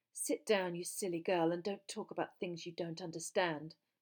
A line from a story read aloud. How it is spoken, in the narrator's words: said Rita Skeeter coldly